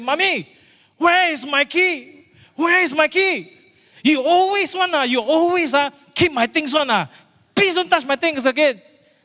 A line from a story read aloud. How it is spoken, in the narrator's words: shouting across the living room and say